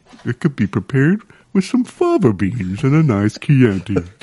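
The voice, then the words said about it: Posh British hoity-toity character voice. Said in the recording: “a horse that's like with a British hoity-toity accent ... Posh horse”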